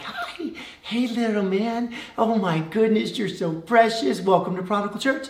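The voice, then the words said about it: Cooing baby voice. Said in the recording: “I start using baby voice”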